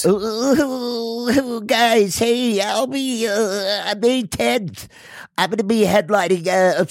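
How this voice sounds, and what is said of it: Imitates another person's voice. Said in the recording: “Can I play Adam? ... do like a little Adam type thing ... that's my like really cool impression of him”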